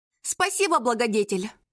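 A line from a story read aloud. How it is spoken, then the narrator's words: Snorted. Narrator (Russian): фыркнула Мирослава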